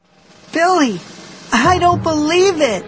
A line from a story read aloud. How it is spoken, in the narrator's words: Sheena cried